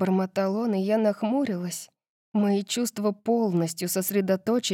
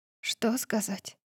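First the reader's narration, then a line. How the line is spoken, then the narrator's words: Whisper. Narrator (Russian): прошептала я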